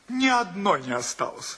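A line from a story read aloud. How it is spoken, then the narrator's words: Good-natured laughing reply. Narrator (Russian): ответил гостеприимный хозяин, добродушно смеясь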